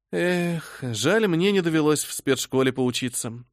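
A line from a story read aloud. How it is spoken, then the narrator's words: Sad sigh. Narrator (Russian): грустно вздохнула я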